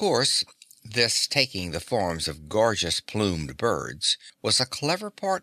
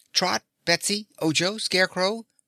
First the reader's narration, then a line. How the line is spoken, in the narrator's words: the boy called out